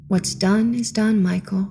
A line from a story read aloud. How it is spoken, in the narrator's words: she said softly